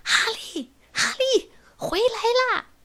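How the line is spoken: Calling repeatedly from above. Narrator (Chinese): 小关在上面一直喊

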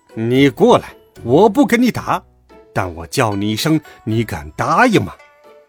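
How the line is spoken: Laughing. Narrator (Chinese): 悟空笑道

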